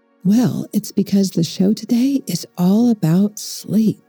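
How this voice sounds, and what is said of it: Soft whisper. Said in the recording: “you might wonder why I'm whispering.”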